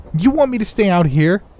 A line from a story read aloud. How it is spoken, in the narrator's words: She blurted, clearly not happy with the prospect of being left alone